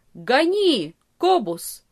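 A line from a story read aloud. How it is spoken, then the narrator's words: Shouting. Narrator (Russian): крикнул врач своему кучеру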